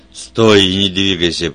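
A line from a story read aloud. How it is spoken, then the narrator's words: Roaring. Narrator (Russian): проревел Вульф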